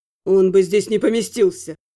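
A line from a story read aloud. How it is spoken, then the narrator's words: Grumbling. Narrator (Russian): проворчал Лютик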